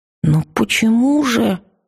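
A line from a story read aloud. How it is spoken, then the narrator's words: Forced out. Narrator (Russian): выдавила я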